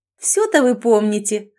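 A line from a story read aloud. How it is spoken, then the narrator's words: Laughing. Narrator (Russian): рассмеялась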